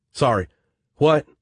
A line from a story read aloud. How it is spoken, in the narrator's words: Jack Trevor stammered